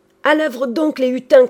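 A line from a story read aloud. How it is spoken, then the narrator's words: Shout. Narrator (French): cria Trouillefou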